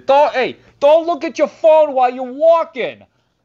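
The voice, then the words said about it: Put-on New York accent, yelling. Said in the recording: “New York accent, just the way I did it... he's yelling at me”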